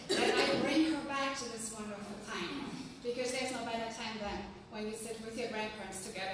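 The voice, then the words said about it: German accent. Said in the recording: “my German accent ... if I sound funny to you, that's because I'm German, and I cultivate my accent very much so.”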